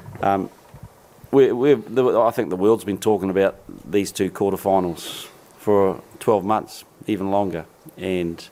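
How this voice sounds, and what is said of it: Hoarse, strained voice. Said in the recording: “I've lost my voice because it's quite loud on that box”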